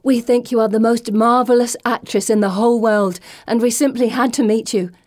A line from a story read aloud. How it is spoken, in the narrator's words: Anne blurts out